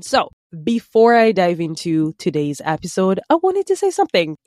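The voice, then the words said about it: Slightly off, sick-sounding voice. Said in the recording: “I've been sick for the past couple of days, so pardon my voice if it's a little bit off”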